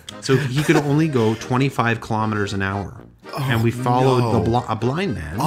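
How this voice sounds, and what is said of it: Usual voice. Nothing is said of it.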